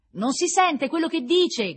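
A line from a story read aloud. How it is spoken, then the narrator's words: Shouted. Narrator (Italian): gridò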